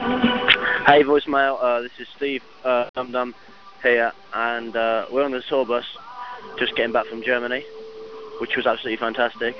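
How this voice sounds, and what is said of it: Speaker's own strong accent. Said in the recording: “my terrible accent”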